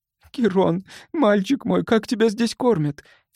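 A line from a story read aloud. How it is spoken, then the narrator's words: Sobbing. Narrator (Russian): всхлипнула Кристен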